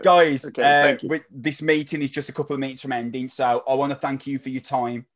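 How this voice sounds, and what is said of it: Strong accent, hard to understand. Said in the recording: “I've got a really strong accent and I'm hard to understand”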